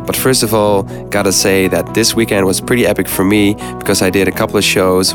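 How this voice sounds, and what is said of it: Sick, flu-affected voice. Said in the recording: “you can probably hear in my voice, I have a little bit of flu going on in my body right now”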